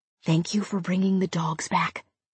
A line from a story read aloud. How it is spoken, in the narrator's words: Heather whispered into Zack's ear